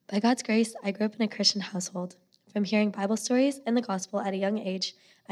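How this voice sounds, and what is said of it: Hoarse, strained voice. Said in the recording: “I lost my voice this weekend, so I don't normally sound like this”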